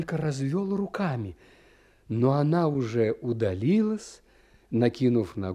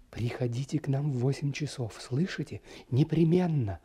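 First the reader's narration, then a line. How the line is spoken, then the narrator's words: Rapid affectionate whisper. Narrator (Russian): она скороговоркой и с прежним ласковым выражением в глазах шепнула мне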